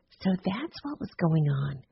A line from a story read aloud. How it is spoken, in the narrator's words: she whispered to Simone